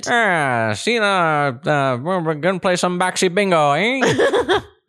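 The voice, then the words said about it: 1930s gangster accent. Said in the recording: “what would you call that accent? ... like 1930s gangster, maybe. ... said in that accent.”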